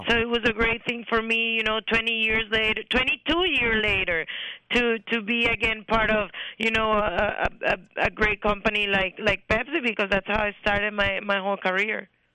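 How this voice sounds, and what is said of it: Colombian accent in English. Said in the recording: “Her accent is far better ... Colombian”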